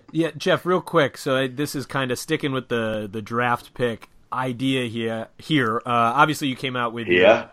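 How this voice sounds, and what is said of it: Boston accent. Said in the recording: “Was that your Boston accent coming through? ... Very Boston of you there with that accent.”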